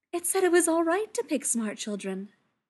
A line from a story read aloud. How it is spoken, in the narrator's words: said happily